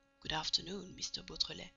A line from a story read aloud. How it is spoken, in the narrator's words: the man say in a low voice